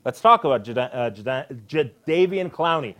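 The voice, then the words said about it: Stuttering speech. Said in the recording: “You stuttering over there? ... I'm stuttering, man. I am.”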